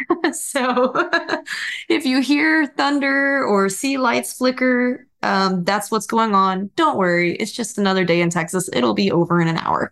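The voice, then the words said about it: TV weather forecaster impression. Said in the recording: “my best weather woman impression ... That's pretty good.”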